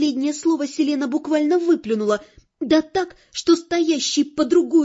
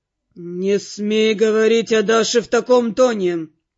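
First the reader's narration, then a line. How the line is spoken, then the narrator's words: Cold, clipped. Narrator (Russian): холодно отчеканил он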